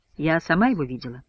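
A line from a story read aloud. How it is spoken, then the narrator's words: Calm reply. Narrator (Russian): спокойно отвечает бортпроводница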